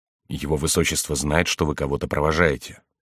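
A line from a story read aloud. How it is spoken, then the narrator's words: Whisper in ear. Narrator (Russian): прапорщик прошептал на ухо Генриху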